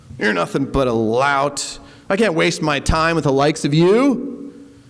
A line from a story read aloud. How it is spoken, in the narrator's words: The monk replied scornfully